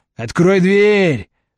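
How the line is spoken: Angry bark. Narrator (Russian): злобно рявкнул здоровый блондин

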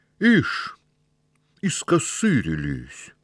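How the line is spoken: Through gritted teeth. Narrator (Russian): Перевел дух и продолжал сквозь зубы

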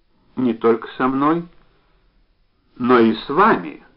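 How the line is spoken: Even voice. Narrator (Russian): ровным голосом добавил Евгений

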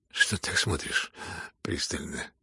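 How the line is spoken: Muttered. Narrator (Russian): пробормотал

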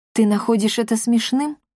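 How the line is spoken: Calm inquiry. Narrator (Russian): спокойно осведомилась первый министр

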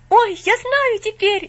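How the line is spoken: Sudden cry. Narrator (Russian): неожиданно вскрикнул он

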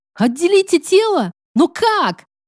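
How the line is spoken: Shout. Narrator (Russian): закричала я

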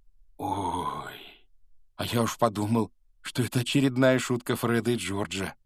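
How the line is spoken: Exhaled. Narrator (Russian): выдохнул Рон

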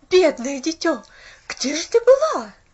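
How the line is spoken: Anxious shout. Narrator (Russian): закричала миссис Кэррил

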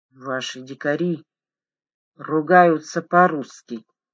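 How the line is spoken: Mumbled. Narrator (Russian): промямлила Аня

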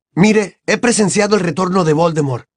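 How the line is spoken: Shouting. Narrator (Spanish): gritó Harry

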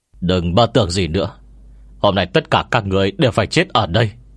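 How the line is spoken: Cold, menacing. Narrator (Vietnamese): Thích La ... vẻ mặt dữ tợn, lạnh lùng nói

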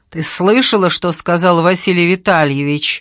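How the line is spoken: Harsh bark. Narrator (Russian): рявкнула Лиза

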